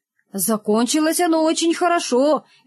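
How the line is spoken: Cheerful. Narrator (Russian): весело сказал Рогов

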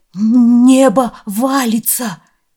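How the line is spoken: Stammering. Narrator (Russian): заикаясь, проговорил Яо

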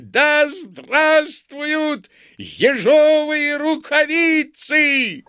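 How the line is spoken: Crowd yelling and clapping. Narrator (Russian): Пестрые люди плескали руками и вопили

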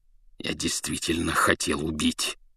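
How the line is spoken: Snarling growl. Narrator (Russian): зарычал он, скаля желтые зубы

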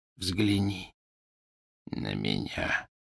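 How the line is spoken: Whisper. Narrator (Russian): прошептал он

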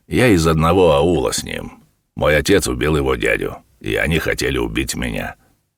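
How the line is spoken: Calm. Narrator (Russian): сказал он спокойно

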